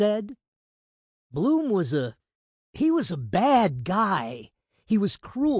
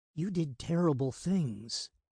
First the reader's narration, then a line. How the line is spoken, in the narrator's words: he said quietly